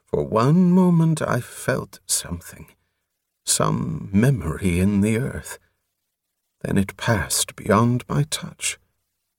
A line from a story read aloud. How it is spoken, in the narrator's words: Prothol murmured